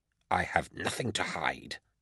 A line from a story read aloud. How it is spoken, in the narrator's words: hissed